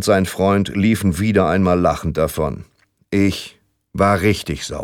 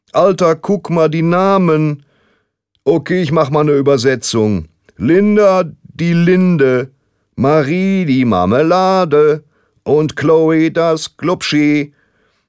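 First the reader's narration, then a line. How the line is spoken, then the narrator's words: Shouted across schoolyard. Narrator (German): Er hieß Mario und er rief wieder einmal über den ganzen Schulhof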